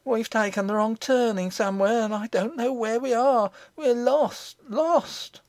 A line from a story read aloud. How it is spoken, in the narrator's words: gave a great cry, and said